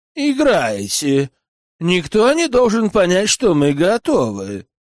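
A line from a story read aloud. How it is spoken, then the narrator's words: Grumbling. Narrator (Russian): Бурбис проворчал музыкантам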